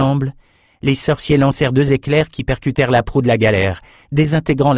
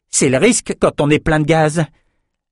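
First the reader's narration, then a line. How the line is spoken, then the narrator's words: Sneering snicker. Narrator (French): Lila ricana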